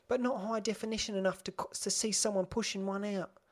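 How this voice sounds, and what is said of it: Unidentified put-on accent. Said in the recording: “I don't know what accent I'm doing.”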